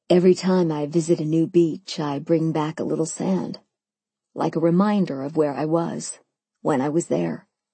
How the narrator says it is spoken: he answered, his voice low and wistful

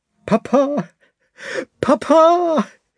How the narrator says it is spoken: he called after him, sobbing

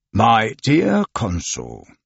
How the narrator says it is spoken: the police inspector replied in a dogmatic tone of voice

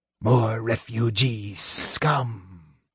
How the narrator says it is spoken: sneered a Draconian

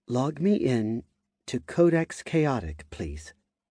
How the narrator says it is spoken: said in a soft voice

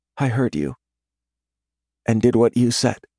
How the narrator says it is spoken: murmurs

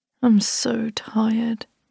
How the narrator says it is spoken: he mumbled

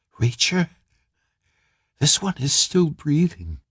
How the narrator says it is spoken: She whispered

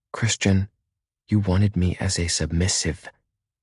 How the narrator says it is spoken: she says, keeping her voice down

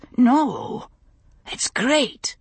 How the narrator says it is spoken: he said hoarsely

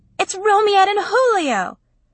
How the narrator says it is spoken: she screamed into the camera

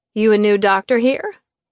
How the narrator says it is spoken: I laughed

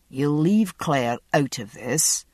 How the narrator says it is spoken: Jamie said evenly

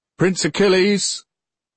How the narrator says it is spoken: Then a voice bawled up the mountain

